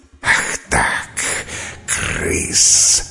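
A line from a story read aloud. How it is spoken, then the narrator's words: Hissing. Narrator (Russian): шипела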